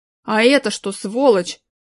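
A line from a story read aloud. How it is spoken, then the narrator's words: Angry growl. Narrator (Russian): рычал Шурик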